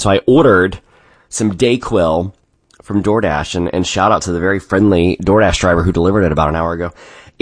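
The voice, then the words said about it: Sore-throated, stuffy-nosed voice. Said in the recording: “I apologize for my voice this morning. I woke up with this horrible sore throat... stuffy nose”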